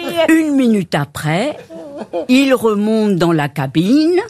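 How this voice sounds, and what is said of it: Usual voice. Nothing is said of it.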